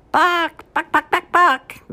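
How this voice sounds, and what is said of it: Clucking chicken impression. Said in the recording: “doing a chicken impression”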